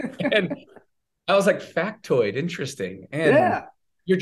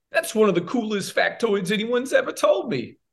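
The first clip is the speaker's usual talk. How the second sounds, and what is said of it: Imitates another person's voice. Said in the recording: “my best Travolta impression”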